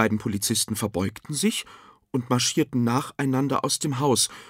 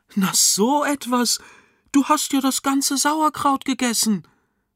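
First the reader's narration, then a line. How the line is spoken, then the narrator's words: Delighted exclamation. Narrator (German): rief sie erfreut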